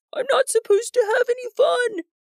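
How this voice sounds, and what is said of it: Falsetto voice. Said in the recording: “in a falsetto voice.”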